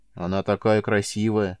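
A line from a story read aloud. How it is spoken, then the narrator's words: Sighed. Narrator (Russian): вздохнула Таура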